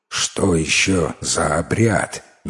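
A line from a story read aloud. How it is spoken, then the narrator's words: Displeased mutter. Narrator (Russian): недовольно пробурчал лесоруб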